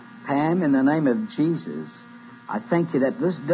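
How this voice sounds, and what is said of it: Usual voice. Nothing is said of it.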